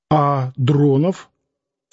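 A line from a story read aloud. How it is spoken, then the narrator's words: Plain. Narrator (Russian): спросил Воравка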